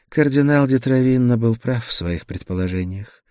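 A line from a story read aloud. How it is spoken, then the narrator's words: Sighing. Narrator (Russian): вздохнула Гертруда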